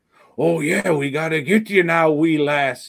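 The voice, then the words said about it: Weird pirate-Irish put-on accent. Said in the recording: “It's kind of a cross between a pirate and an Irish guy. It's a really weird accent ... And it's not even like that”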